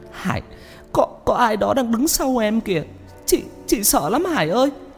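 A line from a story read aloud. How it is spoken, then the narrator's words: Tearful woman. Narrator (Vietnamese): Chị nói trong nước mắt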